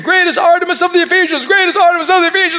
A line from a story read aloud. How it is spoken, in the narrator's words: in a lather shouting and screaming